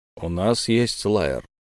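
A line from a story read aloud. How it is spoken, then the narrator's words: Plain. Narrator (Russian): сказал мертвец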